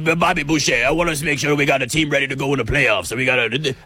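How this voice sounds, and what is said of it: Imitates another person's voice. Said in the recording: “He almost sounds like the water boy. Yeah, Bobby Boucher, this is my Tom Thibodeau impression. It's not good”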